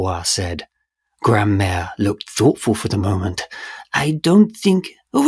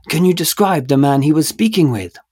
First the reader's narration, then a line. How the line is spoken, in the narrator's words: Dubois said, urgently